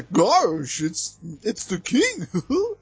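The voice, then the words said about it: Poor Goofy cartoon voice impression. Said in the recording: “my horrible Goofy impression”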